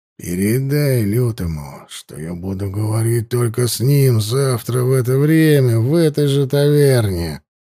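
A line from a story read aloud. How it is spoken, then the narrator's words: Growling. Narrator (Russian): Снова прорычал парень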